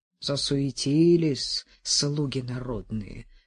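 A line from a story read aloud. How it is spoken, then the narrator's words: Muttered. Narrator (Russian): пробормотал Арсений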